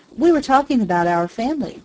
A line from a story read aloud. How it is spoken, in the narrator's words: replied Chewink